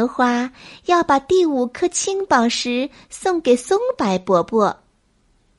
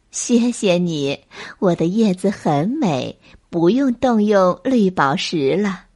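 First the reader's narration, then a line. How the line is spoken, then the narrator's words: Smiling. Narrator (Chinese): 杨柳姐姐 笑道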